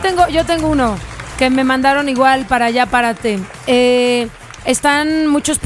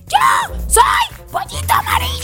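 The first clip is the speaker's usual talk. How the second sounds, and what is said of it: Shouted, shrill chick voice. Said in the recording (Spanish): “¿pero por qué gritas?”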